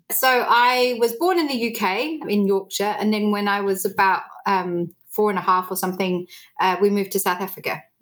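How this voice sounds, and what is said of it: An interesting, unusual accent. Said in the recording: “you have a very interesting accent”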